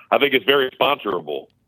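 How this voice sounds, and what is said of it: Mock corporate speaking voice. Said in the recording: “let me say this in my corporate voice.”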